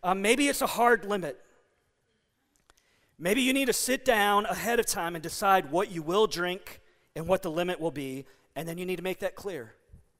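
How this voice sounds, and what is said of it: Strained voice starting to give out. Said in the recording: “man, my voice is starting to go”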